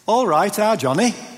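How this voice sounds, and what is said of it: Put-on Yorkshire accent. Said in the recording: “in a best Yorkshire accent”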